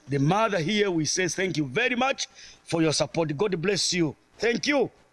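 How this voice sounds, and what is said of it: French and Zambian accented English. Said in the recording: “can you understand him? Probably not... He is a Frenchman from the Congo. So not only does he have a French accent, but he's also got a Zambian accent.”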